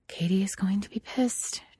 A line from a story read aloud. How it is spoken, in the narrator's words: Julia says under her breath